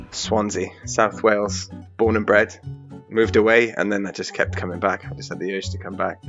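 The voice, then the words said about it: Welsh accent. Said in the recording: “your lovely Welsh accent”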